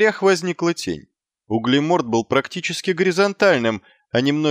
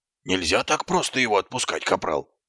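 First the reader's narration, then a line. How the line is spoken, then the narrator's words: Hissed. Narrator (Russian): прошипел Колон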